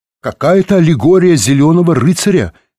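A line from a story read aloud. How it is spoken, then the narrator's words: Shouted. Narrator (Russian): крикнул он библиотекарше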